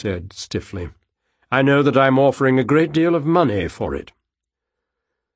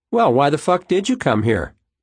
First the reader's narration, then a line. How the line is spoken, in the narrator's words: Pixie asked brightly